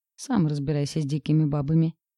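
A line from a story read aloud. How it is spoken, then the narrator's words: Grumbling. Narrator (Russian): проворчал Макс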